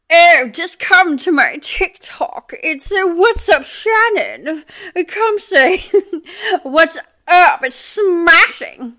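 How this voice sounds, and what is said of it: Puts on an accent. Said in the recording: “An accent.”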